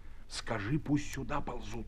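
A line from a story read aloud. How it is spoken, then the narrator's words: Whispering. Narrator (Russian): шепнул он партизану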